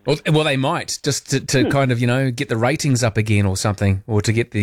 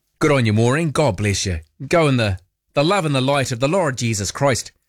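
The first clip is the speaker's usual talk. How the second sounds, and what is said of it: Put-on Irish accent. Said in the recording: “I don't know why I broke into an Irish accent there.”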